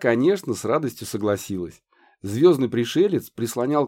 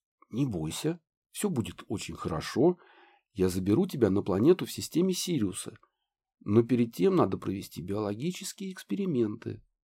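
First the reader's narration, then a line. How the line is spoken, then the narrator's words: Mysterious whisper. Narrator (Russian): он таинственно зашептал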